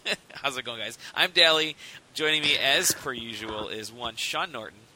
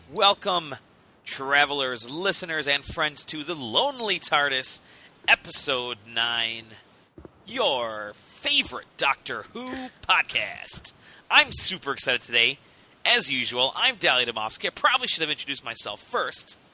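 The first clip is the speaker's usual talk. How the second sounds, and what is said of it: Announcer-style radio voice. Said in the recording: “Radio voice is over.”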